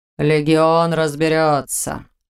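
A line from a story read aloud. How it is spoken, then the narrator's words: Cold promise. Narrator (Russian): холодно пообещал ему старший легионер столицы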